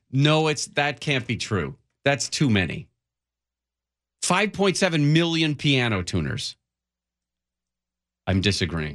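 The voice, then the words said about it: Yelling, loud emphatic voice. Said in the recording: “Why are you yelling?”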